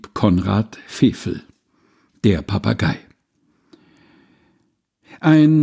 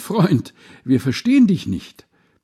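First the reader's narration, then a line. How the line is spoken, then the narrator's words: Crowd calling out. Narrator (German): rief Groß und Klein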